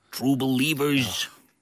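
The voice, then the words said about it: Imitates another person's voice. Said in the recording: “my Stanley impression... that's pretty bad... I think it's pretty good”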